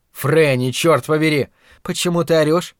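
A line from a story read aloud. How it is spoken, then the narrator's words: Soft question. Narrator (Russian): мягко спросила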